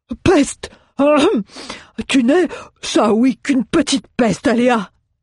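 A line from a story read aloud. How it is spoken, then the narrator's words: Shivering exclamation. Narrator (French): s'exclama Mjoln, tremblant de froid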